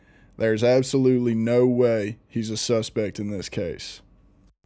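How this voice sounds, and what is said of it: Southern accent imitation. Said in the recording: “I'm going to retake that because he has a southern accent.”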